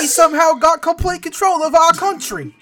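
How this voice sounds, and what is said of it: Put-on British or Australian accent. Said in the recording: “I can't tell if you're trying to be British or Australians.”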